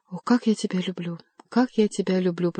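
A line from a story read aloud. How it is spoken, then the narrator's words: Whisper. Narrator (Russian): прошептал Бюсси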